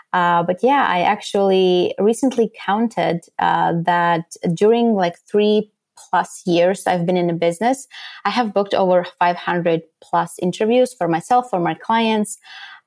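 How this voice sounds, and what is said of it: Slight Latvian accent. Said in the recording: “I am actually based in Europe, Latvia. So maybe that's why you kind of can hear my accent sneaking a little bit.”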